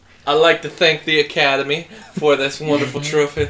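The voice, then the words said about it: Cartoonish Southern character accent. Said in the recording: “Who are you supposed to be? Swamp? ... Yeah, what accent? ... Are you Foghorn Leghorn?”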